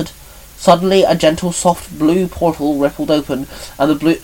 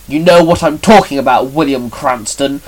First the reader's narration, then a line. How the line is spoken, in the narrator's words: Shinon barked